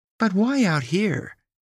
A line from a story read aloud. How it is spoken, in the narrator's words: inquired with the sound of perplexity in her melodious voice